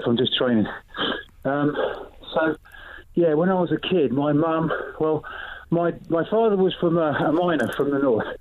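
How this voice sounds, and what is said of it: Breathless, panting speech. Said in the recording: “out of breath”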